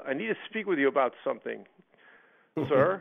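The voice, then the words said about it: Put-on New York accent. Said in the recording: “he's a New York guy. He's got an accent.”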